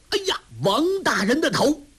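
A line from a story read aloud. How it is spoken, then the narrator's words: Loud shout. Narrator (Chinese): 为首的那个人大声吆喝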